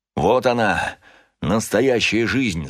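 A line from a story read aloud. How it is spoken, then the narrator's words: Breathless joy. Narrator (Russian): задыхаясь радостно сказал отец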